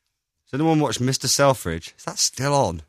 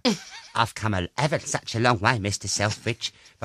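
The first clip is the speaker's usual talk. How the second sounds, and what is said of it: Imitates another person's voice. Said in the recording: “kind of do a good impression of her ... That's what she sounds like, though.”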